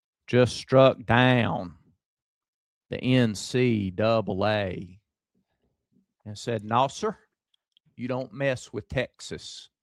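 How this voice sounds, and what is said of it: Put-on Lubbock Texas accent. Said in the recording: “Is that your Lubbock accent?”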